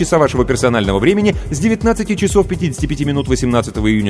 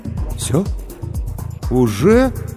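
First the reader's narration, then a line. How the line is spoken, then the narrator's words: Bewildered drawl. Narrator (Russian): растерянно протянул Сергей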